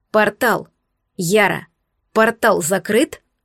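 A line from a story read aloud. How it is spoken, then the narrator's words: Stern demand. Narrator (Russian): Алекс строго потребовал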